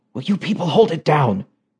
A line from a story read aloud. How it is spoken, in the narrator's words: whispered the head of the Yale Anthropology Department